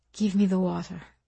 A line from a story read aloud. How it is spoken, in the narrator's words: she said, her voice a rasp, her French accent sharpened by exhaustion